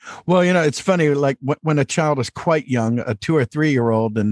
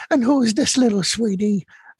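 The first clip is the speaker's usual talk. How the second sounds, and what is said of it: Winnie the Pooh character voice. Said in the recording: “I'll launch into a little Pooh”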